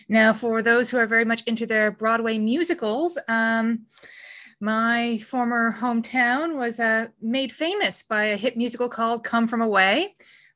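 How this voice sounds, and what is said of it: Newfoundland Canadian accent. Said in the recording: “I'm also not from around here, as you can tell by my accent. I grew up in a small eastern province in Canada called Newfoundland.”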